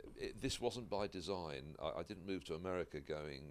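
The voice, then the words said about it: British accent. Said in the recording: “you're British, and the accent just turns it up”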